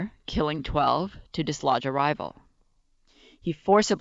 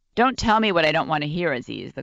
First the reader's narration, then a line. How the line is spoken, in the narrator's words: the colonel interrupted, his tone brusque